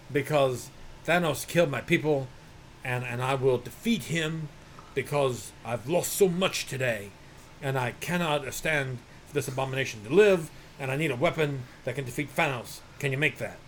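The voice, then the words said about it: Thor impression. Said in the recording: “I'm Thor. I'm doing my Thor impression.”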